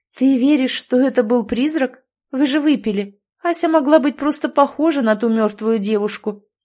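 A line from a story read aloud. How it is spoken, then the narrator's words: Uncertain speech. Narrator (Russian): неуверенно проговорила Ольга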